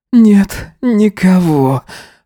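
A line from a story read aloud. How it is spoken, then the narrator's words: Groaning reply. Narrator (Russian): ответил он, застонав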